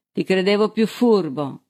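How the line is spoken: Exclaimed. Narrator (Italian): esclamò Balsili

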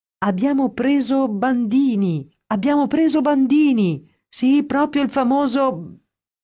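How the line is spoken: Excited shouting. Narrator (Italian): a gridare tutto esaltato

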